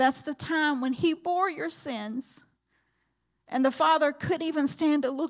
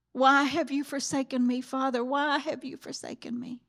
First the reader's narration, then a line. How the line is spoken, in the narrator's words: my Jesus cries out